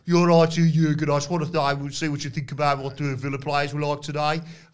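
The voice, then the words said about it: Put-on Midlands accent. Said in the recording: “play in the in the Midlands. Where Pete Dunne's from, where they've got this accent.”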